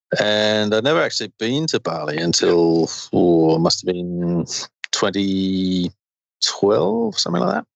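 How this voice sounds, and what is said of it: Australian accent with British tinge. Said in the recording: “I was detecting a bit of an accent there ... My mother's British, so my accent kind of flip-flops a bit ... I grew up in Queensland in Australia”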